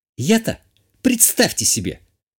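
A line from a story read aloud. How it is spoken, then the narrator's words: Angry defiant hiss. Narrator (Russian): Как-то зло и вызывающе прошипела графиня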